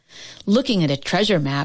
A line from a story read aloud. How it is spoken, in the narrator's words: she sighed